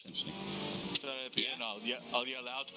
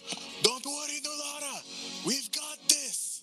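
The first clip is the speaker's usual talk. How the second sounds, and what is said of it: Shouting loudly. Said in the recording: “Why are you yelling?”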